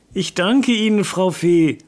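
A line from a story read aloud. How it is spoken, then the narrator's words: Said loudly. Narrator (German): sagte er laut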